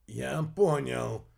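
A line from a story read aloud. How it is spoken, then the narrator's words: Hoarse rasp. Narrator (Russian): прохрипел алхимик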